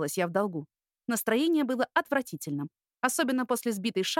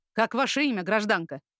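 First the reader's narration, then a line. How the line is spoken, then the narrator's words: Stern question. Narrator (Russian): строго поинтересовался полицейский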